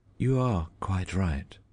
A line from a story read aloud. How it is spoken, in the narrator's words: she said calmly